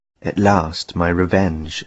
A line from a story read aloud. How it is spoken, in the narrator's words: said Menelaus